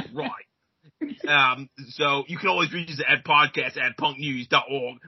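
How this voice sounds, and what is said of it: Put-on English accent. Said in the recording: “I'm going to continue my English accent”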